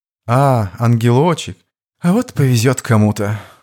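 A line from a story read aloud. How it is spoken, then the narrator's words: Feigned sigh. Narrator (Russian): наигранно вздохнул Слива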